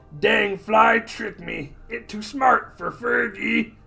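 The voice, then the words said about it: Gollum-like voice, third person. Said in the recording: “He talks like Gollum talking to himself in the third person.”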